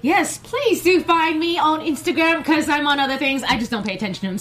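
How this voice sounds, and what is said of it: British accent. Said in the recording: “I heard a British accent.”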